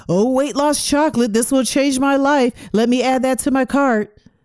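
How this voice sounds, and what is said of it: Sarcastic mock-enthusiastic tone. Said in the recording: “I'm being sarcastic”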